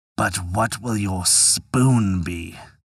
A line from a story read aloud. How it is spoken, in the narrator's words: The devil was angry and began to mutter, and asked